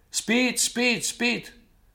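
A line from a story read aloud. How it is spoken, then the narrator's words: Man shouting. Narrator (Russian): кричал в бараке американец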